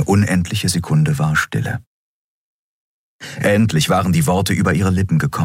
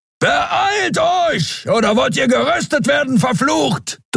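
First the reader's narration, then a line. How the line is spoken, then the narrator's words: Thundering shout. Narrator (German): donnerte Keru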